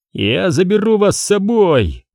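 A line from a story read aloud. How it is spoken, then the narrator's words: Joyful shouting. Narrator (Russian): радостно кричал Вескер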